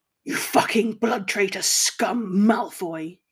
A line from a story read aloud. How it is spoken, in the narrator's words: he growled